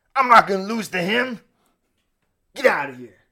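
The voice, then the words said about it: Imitates another person's voice. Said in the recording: “your Scott Steiner impersonation”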